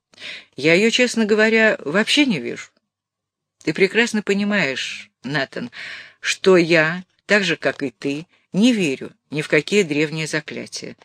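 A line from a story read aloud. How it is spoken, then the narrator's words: Calm. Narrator (Russian): спокойно сказал Гофман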